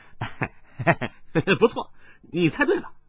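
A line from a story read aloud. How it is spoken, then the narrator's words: Child laughing. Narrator (Chinese): 跛足童子终于笑着说道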